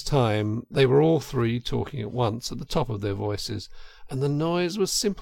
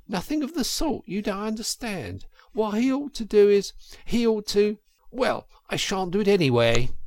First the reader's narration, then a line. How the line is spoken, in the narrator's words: cried the Toad, getting excited